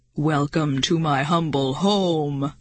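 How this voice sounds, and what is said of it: Deep booming voice. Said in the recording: “a deep voice suddenly boomed”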